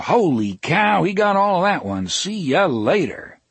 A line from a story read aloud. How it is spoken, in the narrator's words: Mel would bellow